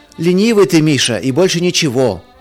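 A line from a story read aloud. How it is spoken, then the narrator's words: Shout from another room. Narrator (Russian): из ванной крикнул Марк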